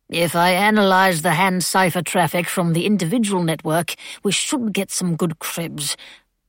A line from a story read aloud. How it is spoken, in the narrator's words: Dilly muttered